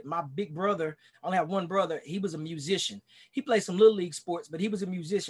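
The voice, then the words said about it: Texas accent with a twang. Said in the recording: “I'm losing my twang. I'm trying to keep my Texas twang ... I got to keep my Texas accent.”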